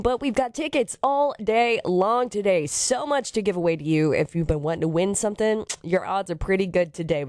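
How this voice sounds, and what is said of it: Strained voice from illness. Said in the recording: “I am feeling a little bit better, but my voice is still not the best”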